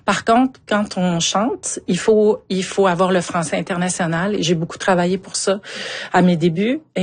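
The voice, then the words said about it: Strong Québécois Montmagny accent. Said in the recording (French): “énorme accent de Montmagny ... c'est un très bel accent là, de Montmagny”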